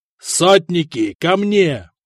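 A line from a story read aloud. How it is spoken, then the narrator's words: Roaring. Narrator (Russian): проревел Теодон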